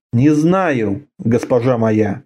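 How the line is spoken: Quiet. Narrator (Russian): тихо сказал Аршак

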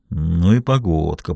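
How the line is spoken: Grumble. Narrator (Russian): проворчал Чип

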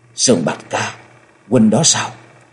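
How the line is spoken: Trembling, hopeful, choked with emotion. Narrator (Vietnamese): Giọng nói hơi run run, thể hiện rõ sự trông chờ và mừng vui, không giấu được nỗi xúc động đến nghẹn ngào

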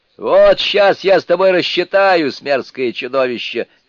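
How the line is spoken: Shouted reply. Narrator (Russian): крикнул, раскатавшись в ответ Суню-Кун

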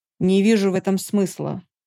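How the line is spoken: Angry, curt. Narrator (Russian): сердито отрезал Дармат

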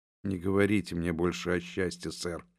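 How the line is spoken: Hoarse, muffled young woman's voice. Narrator (Russian): хриплым голосом ответила девушка, снова закрывая лицо руками

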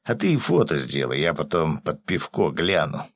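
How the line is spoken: Grumbling mutter. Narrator (Russian): пробурчал рыбак

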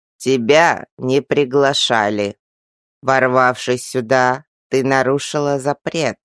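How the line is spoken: Creaky old man's voice. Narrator (Russian): снова проскрипел тот старик

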